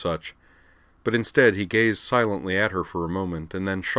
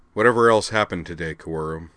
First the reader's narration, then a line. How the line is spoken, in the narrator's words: said gravely